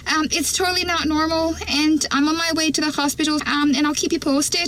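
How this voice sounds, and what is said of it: Inconsistent Irish accent. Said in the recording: “Is that a good Irish accent, though? I feel like... I didn't think it was that great. ... It kind of comes and goes.”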